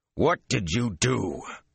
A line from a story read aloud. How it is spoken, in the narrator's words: Even deep in the cold, emotionless void as he was, his voice grated